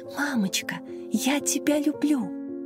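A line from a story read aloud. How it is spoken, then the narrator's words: Small child's whisper. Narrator (Russian): Младшая, трехлетняя Маша шептала ей на ухо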